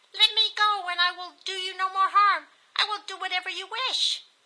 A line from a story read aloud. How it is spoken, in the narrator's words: the devil pleaded